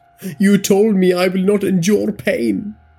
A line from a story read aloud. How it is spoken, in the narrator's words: Ajay screamed